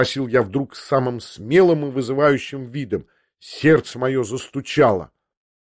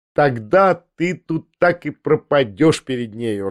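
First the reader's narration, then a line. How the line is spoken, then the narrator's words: Laughing. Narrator (Russian): рассмеялась Лиза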